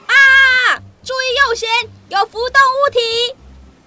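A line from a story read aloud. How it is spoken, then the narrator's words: Sailor shouting from lookout. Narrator (Chinese): 一个舰上的水兵从瞭望台上向下喊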